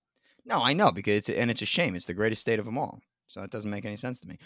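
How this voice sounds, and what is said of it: Thick North Jersey accent. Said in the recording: “all I ever got was that New York accent is thick ... I'm from North Jersey. It's a Jersey accent. It's not New York ... This is Jersey.”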